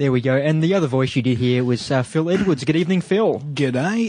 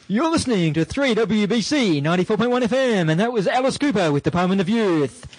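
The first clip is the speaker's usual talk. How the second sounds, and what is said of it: Rock DJ announcer voice. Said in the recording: “You should have put your best uh, rock DJ voice on.”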